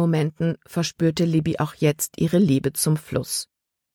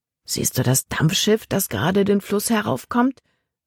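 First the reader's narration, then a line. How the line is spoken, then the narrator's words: Murmured. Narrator (German): murmelte er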